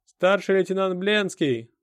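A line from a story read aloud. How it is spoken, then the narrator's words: Yelling outside window. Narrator (Russian): орал кто-то за окном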